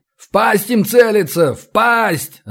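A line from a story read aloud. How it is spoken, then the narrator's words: Echoing yell. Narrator (Russian): заорал я так, что эхо заметалось по залу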